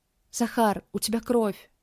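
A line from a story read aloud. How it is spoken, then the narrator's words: Trembling whisper. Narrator (Russian): Дрожащим голосом прошептала она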